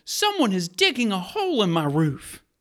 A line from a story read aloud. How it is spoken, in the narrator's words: You exclaim